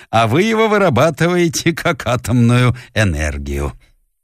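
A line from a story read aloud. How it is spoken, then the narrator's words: Booming laughter. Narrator (Russian): раскатостно хохотал кудрявый врач-египтянин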